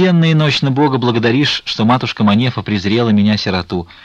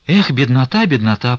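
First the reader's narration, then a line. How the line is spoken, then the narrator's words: Bitter sigh. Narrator (Russian): прибавила она, горько вздохнув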